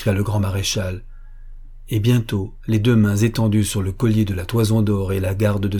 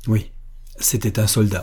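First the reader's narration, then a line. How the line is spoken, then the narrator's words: Murmured. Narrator (French): murmura M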